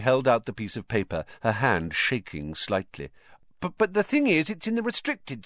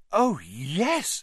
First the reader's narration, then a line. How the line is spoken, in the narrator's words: said Hermione eagerly